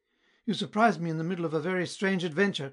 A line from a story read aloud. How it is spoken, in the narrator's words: cried she